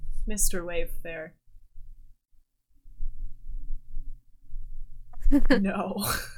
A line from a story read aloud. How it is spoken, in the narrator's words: actually laughs at that, and he's like